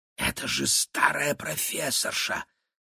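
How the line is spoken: Whisper. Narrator (Russian): шепнула Кира

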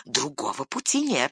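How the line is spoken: Whispering. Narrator (Russian): шептал Горлум

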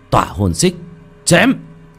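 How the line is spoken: Loud shout. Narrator (Vietnamese): Một tiếng hét lớn vang lên

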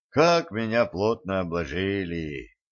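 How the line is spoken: Heavy sigh. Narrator (Russian): тяжко вздохнул Валентин

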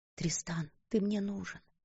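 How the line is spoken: Whisper. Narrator (Russian): прошептала она

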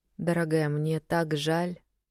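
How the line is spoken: Quiet, timid. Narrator (Russian): тихо сказала Вероника, которая боялась чужих истерик

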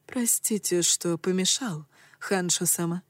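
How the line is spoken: Low velvety voice. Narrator (Russian): сказал придворный низким бархатным голосом

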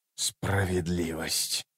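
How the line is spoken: Furious whisper. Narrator (Russian): яростно прошептал Ном

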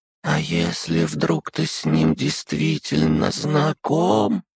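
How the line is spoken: Quiet muttering worm. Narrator (Russian): тихо пробормотал разумный червь

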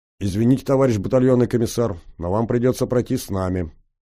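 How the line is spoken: Peremptory firm statement. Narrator (Russian): безапелляционным тоном заявил сержант

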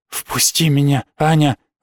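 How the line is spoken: Breathed out. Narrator (Russian): выдохнул Хас

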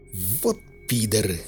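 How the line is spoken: Grumbled mutter. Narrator (Russian): буркнул аспирин

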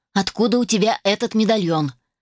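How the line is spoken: Sharp question. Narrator (Russian): резко спросила я

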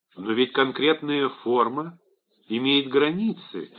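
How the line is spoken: Soft objection. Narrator (Russian): мягко возразил Порыш

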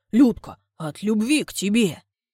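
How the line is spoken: Hoarse wheezing voice. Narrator (Russian): хрипит

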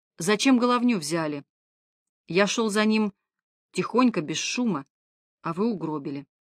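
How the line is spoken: Quiet. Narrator (Russian): тихо произнес Константинов

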